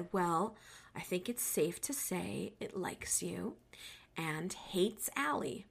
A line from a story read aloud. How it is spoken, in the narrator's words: He very calmly said